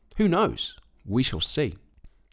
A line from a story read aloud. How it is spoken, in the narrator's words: Again, the farmer softly said